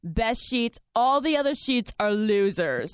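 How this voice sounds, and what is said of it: Donald Trump impression. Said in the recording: “I can do like a little Trump impersonation.”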